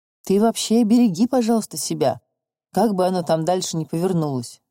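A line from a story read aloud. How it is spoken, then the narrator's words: Plain. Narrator (Russian): сказал Федор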